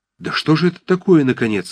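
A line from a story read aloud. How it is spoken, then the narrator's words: Alarmed exclamation. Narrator (Russian): воскликнул в тревоге Ромашов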